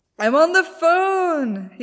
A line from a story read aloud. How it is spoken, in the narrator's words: screams back, belligerent